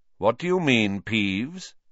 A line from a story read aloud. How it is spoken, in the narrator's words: said Dumbledore calmly